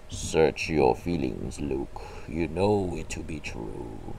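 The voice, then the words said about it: Darth Vader impression voice. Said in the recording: “Darth Vader ... it's been a while since I did a voice impression.”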